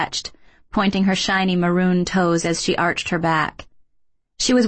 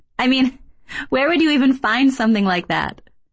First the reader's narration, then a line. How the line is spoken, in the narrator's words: Kay laughed